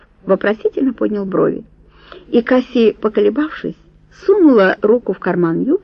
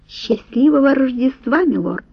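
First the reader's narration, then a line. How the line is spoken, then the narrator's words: Timid. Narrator (Russian): робко произнесла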